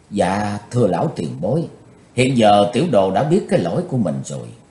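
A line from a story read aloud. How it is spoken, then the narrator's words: Gentle remorseful voice. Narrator (Vietnamese): đầy vẻ hối hận, Chí Tôn nhỏ nhẹ nói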